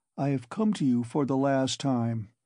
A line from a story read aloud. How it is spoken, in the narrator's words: Raskolnikov went on gloomily